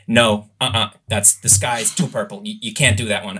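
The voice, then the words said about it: Imitated American accent. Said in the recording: “she's from America, so excuse my accent”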